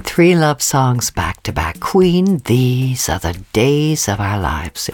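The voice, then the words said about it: Slightly Irish, mid-Atlantic accent. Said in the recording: “I can't place that accent, a little bit of Irish, mid-Atlantic, indefinable.”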